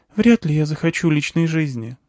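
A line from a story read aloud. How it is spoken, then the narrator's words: Sigh. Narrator (Russian): вздохнула она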